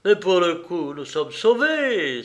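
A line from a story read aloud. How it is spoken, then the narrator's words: Joyful exclamation. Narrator (French): s'écria Gabriel rayonnant de joie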